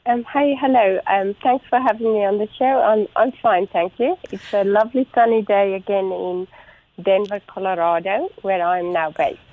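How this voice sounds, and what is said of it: South African accent. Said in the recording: “you are not originally from Colorado based on your accent ... I am South African by background”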